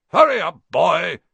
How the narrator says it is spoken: shouted Uncle Vernon from the kitchen

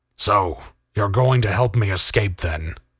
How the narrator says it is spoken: growled Keegan

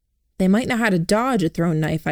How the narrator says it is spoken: I said

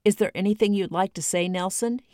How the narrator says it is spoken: he asked

